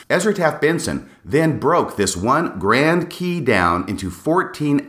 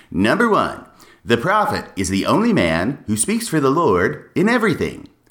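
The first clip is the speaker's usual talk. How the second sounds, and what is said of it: Casey Kasem impression. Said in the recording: “my Casey Kasem impression.”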